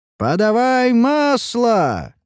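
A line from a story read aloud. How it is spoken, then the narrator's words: Crowd shouting. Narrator (Russian): кричали на стенах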